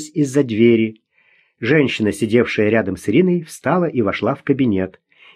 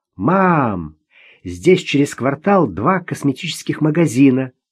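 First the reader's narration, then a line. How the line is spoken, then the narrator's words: Joyful exclamation. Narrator (Russian): радостно воскликнула она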